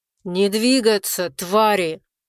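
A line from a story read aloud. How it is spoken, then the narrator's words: Terrible growl. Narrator (Russian): ужасным голосом зарычал Черныш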